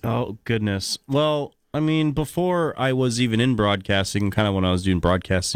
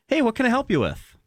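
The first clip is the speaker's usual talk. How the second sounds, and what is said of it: Bright customer service voice. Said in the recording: “my customer service voice.”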